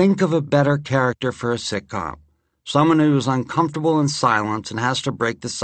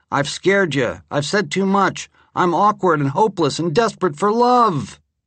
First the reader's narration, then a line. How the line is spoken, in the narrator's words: he shouts at Janice as she leaves his apartment